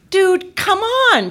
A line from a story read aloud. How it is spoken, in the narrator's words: she begged